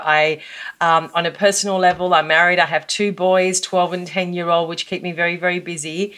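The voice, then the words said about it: Australian accent. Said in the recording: “you can tell from my accent that I'm from Australia”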